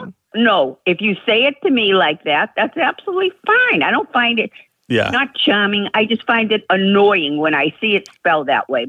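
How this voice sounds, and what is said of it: Delightful regional accent. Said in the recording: “you have a delightful accent”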